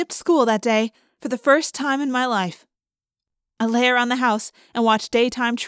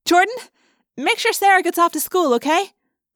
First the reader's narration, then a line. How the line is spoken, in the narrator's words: called out